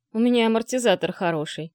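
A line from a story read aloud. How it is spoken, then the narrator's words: Grumbling mutter. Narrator (Russian): пробурчал Злюка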